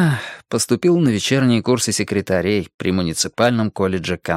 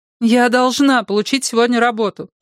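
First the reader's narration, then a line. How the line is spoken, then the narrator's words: Moaning. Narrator (Russian): простонала Салли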